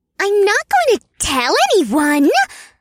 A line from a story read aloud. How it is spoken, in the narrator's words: squeaked with an insulted scowl